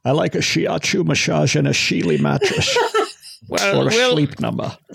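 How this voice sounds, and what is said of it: Strange Scottish accent, James Bond. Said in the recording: “your strange Scottish accent”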